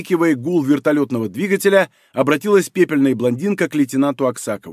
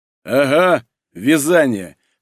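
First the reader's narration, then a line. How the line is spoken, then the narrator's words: Burly young man's snort. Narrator (Russian): хмыкнул мощный парень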